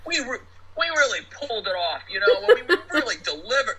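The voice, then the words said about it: Thick New York accent. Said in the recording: “in that thick New York accent”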